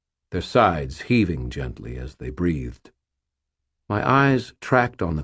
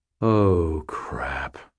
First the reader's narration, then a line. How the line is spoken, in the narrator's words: I breathed